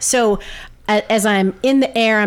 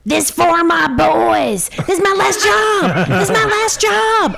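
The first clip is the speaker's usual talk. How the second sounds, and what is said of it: Screaming. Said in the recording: “I'm screaming,”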